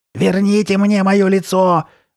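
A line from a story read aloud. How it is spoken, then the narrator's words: Screamed. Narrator (Russian): вопила она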